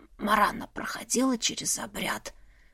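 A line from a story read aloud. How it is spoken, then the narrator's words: Hoarse question. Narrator (Russian): сипло спросила я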